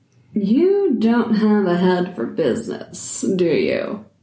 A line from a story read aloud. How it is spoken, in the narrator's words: She said, smiling with a hint of a sneer